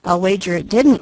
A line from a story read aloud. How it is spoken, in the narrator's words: laughed Douglas